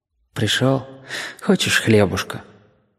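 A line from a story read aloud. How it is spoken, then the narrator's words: Quiet. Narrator (Russian): Павлик тихо скажет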